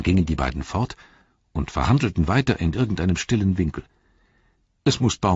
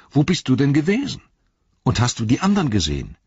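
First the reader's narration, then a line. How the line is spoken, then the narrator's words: Exclaiming. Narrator (German): rief aus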